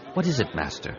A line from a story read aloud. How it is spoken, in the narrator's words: he asked quietly